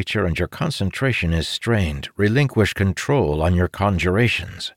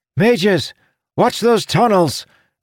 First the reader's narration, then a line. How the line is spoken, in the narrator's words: Felinia shouted